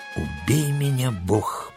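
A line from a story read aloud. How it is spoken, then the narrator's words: Stunned whisper. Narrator (Russian): прошептал пораженный Джон Смит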